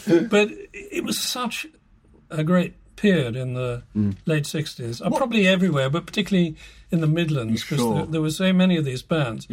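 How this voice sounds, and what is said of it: British received pronunciation accent. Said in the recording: “You were born with BBC English ... Received pronunciation has always come easier to me”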